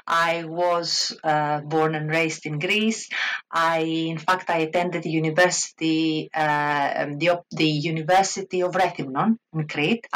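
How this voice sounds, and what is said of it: Greek-accented English. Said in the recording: “Obviously, I'm a Greek. You can probably hear it from my accent.”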